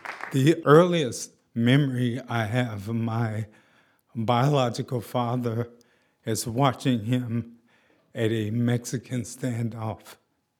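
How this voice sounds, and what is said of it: Shaky voice. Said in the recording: “has MS, so that's why his voice sounds a little shaky sometimes”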